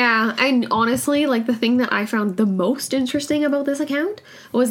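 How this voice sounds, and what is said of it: Usual voice. Nothing is said of it.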